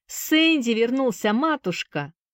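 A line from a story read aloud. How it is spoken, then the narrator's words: Cheerful shout. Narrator (Russian): весело крикнул Джонни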